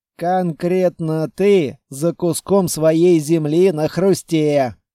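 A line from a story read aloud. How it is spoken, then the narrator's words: Amused snort. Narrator (Russian): хмыкнул Шендер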